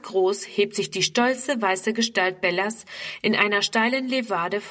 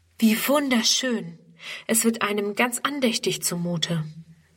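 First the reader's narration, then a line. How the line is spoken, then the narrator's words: Amazed voices together. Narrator (German): staunen dann alle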